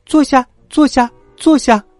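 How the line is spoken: Calling out. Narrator (Chinese): 劳拉也叫道

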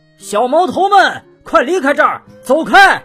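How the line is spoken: Loud shout. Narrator (Chinese): 司机 大声喊道

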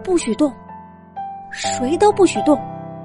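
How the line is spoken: Quiet voice. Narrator (Chinese): 狐狸妈妈艾米小声说道

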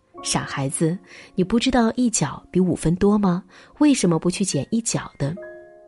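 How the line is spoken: Hearty laughter. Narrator (Chinese): 哈里逊哈哈一乐，笑道

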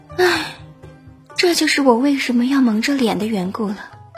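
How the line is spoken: Sighing. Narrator (Chinese): 这位大美女她叹了一口气

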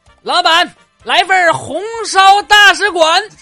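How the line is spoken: Calling out. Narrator (Chinese): 有人喊啊

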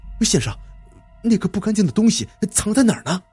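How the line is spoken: Frightened, hurried question. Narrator (Chinese): 李二狗打了个冷战，急忙问

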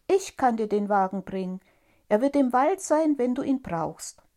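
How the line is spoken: Called out. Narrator (German): rief Tom

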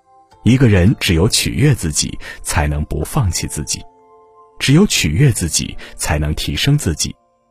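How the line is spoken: Smiling monk. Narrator (Chinese): 禅师笑着又说

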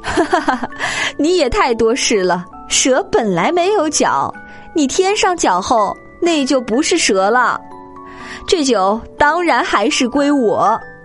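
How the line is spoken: Hearty laughing. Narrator (Chinese): 那个门客哈哈大笑说

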